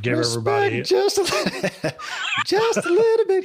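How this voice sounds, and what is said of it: Sings in falsetto. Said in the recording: “Hit my falsetto.”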